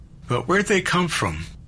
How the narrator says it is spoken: Jack had asked

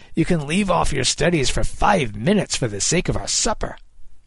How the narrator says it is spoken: Kid snapped

